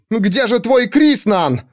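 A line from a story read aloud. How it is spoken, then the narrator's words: Shouted. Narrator (Russian): выкрикнула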